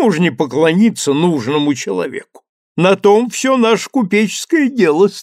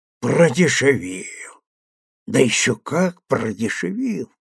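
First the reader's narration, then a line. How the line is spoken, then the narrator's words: Mortally offended muttering. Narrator (Russian): бормотал смертельно оскорбленный голландец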